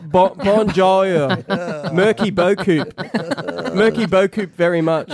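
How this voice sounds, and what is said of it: French in a broad Australian accent. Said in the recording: “talking French with an Australian accent.”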